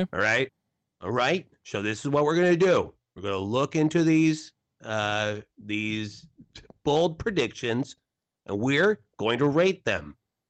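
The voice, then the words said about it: Imitates another person's voice. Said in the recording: “is my best Adam Schefter impersonation ... That's more Jim Rome.”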